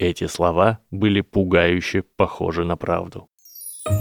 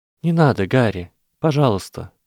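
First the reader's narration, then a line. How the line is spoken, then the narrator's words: Soft. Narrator (Russian): мягко сказала она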